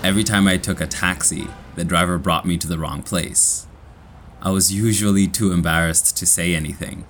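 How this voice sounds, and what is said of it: Kenyan-accented English. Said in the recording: “my Kenyan accent”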